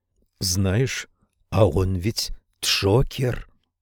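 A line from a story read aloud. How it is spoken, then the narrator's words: Whisper. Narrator (Russian): прошептала сестричка справа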